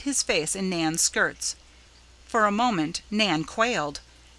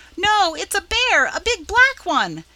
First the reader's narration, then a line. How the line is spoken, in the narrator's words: screaming in a great panic